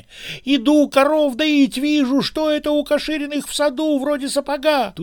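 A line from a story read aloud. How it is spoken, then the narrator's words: Furious old man shouting. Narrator (Russian): яростно закричал дед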